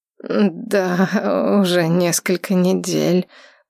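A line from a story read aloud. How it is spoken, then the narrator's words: Mumbling. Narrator (Russian): промямлил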